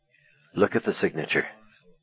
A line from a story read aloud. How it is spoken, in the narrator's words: said quietly